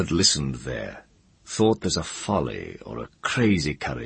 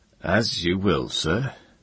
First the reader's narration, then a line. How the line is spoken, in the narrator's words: the Isle Man said gloomily